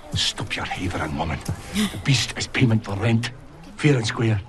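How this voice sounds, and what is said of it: Strong Scottish accent. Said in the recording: “The Scottish accent was throwing me ... the Scottish accent is strong”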